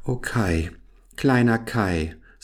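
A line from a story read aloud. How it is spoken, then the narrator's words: Sigh. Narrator (German): seufzte Gerda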